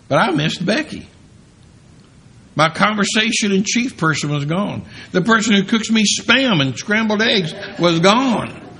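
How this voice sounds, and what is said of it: Speaks with a regional accent. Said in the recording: “The one who understood my accent. Because everybody that in California does not talk the way I do.”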